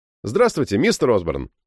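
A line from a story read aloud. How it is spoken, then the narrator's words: Perky, lively voice. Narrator (Russian): вчерашним задорным голосом сказал я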